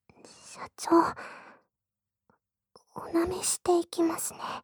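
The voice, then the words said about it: Whispering close to the ear. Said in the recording (Japanese): “耳元でささやきながら”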